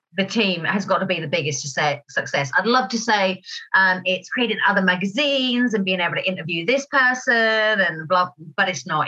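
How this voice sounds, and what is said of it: Slightly hoarse, croaky voice. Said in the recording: “I've got a little frog in my throat today”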